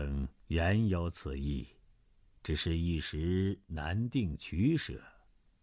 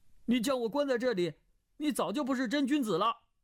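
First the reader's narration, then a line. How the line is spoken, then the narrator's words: Crying out. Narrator (Chinese): 段誉叫道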